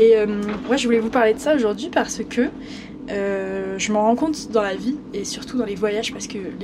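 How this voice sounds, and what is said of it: Usual voice. Nothing is said of it.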